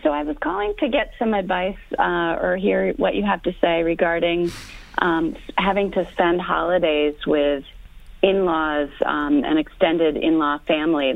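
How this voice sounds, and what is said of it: Hoarse voice from a cold. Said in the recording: “I have a cold, so I'm speaking a little hoarse.”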